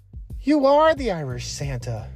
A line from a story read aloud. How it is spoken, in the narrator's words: Roysland exclaimed